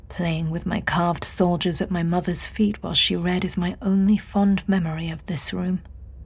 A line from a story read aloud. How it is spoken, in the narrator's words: she heard him murmur